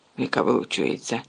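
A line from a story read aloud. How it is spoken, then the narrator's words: Mutter. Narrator (Ukrainian): пробурмотів Рон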